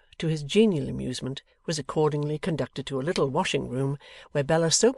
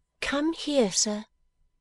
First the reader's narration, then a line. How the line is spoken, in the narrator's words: cried Bella